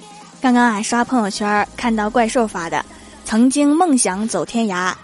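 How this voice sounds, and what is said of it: Usual voice. Nothing is said of it.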